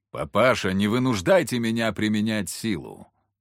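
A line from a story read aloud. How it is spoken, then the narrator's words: Young man booming. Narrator (Russian): прогудел парень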